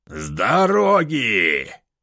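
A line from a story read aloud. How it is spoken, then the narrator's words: Growling. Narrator (Russian): Прорычал я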